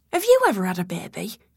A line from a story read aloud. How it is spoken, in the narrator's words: calmly but icily, Grace said